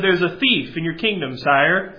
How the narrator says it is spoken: said the servant

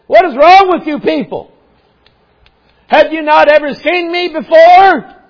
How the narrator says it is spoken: there'd be shouting

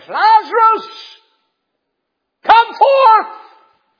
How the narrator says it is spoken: he cried, the Bible says, with a loud voice

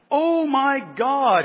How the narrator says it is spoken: he cried

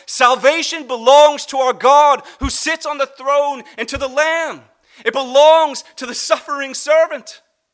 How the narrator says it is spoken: They're crying out and shouting with a loud voice

